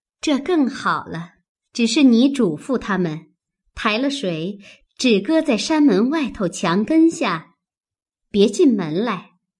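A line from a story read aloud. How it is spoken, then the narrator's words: Laughing. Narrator (Chinese): 妙玉笑道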